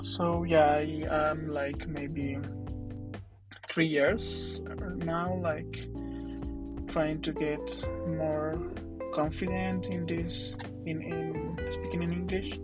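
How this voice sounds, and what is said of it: Non-native English accent. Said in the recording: “I want to apologize in advance for my accent.”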